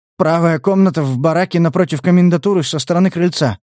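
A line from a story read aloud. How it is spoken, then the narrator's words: Mumbling. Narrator (Russian): промямлил сержант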